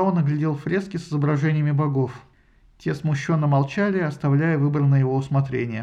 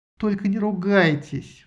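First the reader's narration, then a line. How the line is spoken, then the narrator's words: Pleading. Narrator (Russian): взмолилась Исида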